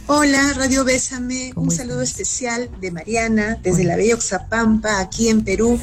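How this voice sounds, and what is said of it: Charming Peruvian Spanish accent. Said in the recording (Spanish): “Qué gran acento. ... nos enamoras también con tu acento.”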